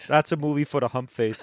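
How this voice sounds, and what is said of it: Very bad put-on Boston accent. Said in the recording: “That's like some sort of really bad, I don't know, TV sitcom Brooklyn Cabbie. ... In a world where there are many, many bad Boston accents, that is just one of the worst I've ever heard.”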